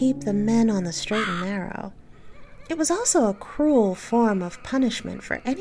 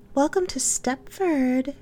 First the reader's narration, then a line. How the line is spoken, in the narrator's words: said sweetly